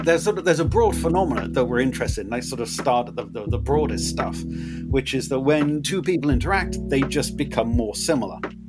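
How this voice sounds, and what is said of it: Hybrid English and Californian accent. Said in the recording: “my weird Swindon, California hybrid accent”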